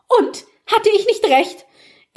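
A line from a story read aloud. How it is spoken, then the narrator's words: Startlingly loud voice. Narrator (German): Elinors Stimme wurde so laut, dass Maggie zusammenfuhr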